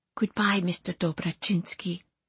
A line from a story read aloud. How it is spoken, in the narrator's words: she whispered